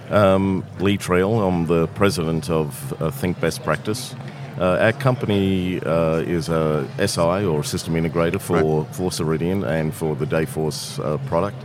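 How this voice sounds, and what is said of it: Australian accent. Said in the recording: “I have a funny accent,... I'm originally from Australia”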